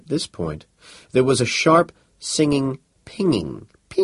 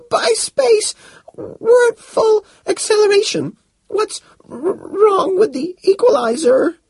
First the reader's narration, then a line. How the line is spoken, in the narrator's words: He struggled for breath and stuttered out in gasps